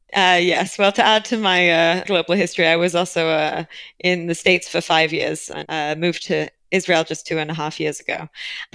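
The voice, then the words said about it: British accent. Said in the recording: “You've got that lovely British accent”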